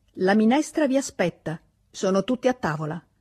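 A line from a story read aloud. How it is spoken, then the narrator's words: Shout. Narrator (Italian): gridò Christophe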